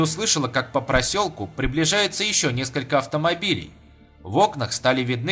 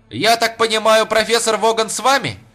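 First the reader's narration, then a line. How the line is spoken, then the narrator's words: Reporter shouting. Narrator (Russian): крикнул репортер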